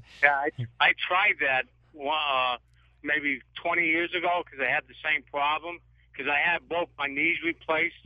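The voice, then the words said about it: Boston accent. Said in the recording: “you got that accent. ... You've got to live in Boston, right?”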